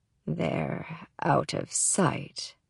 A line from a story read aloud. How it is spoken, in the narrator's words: he says, his voice growing deeper with each word